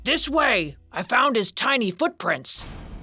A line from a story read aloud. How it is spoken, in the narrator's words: In the distance a man's voice shouting